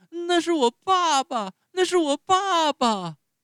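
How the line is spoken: Shocked shrill shout. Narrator (Chinese): 匹诺乔顿时大吃一惊，尖声高叫

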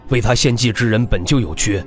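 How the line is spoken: Deep grave voice. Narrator (Chinese): 秦家家主这才沉声开口

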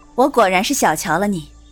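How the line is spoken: Faint smile. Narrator (Chinese): 赵云才淡淡一笑

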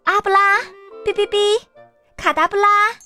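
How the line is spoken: Robot shouting. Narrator (Chinese): 机器人温妮 大喊一声

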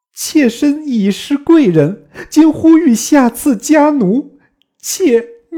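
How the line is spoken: Shocked, crying woman. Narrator (Chinese): 貂蝉大惊，哭曰

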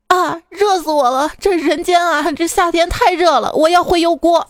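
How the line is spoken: Crying. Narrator (Chinese): 他哭着说

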